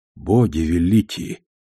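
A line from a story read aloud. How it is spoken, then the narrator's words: Shocked mutter. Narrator (Russian): потрясенно пробормотал я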